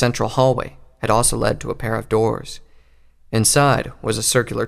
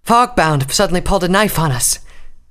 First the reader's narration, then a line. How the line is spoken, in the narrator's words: she said between pants